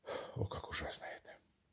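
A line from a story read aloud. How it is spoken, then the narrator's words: Exhausted mutter. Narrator (Russian): Он в изнеможении пробормотав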